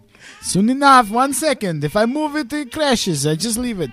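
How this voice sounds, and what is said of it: Put-on Russian accent. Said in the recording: “What is this accent you're doing? ... It's Russian. ... It sounded Middle Eastern. ... Pretty good.”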